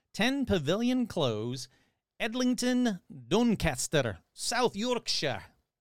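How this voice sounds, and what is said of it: Put-on South Yorkshire accent. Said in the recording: “That's my best accent I could do.”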